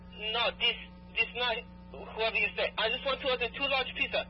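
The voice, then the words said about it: Bad put-on foreign accent. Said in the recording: “That's a really bad accent.”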